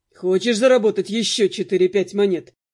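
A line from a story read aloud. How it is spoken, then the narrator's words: Amused snort. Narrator (Russian): хмыкнул он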